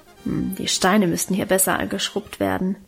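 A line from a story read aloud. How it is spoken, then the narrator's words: Grumbling to herself. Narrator (German): brummte sie vor sich hin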